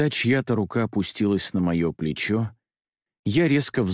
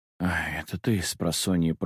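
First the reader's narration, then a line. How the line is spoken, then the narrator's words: Mumbling. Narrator (Russian): пробормотал я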